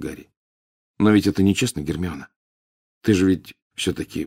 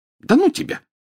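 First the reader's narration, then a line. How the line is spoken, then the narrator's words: Snapping retort. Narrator (Russian): огрызнулась она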